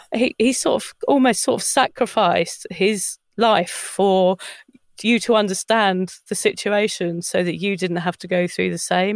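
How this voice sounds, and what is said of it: Emotional, choked-up voice. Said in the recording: “I'm getting a bit emotional”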